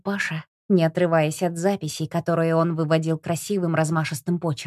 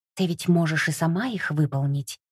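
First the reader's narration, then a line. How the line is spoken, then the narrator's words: Whispered question. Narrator (Russian): шепотом спросил Ярик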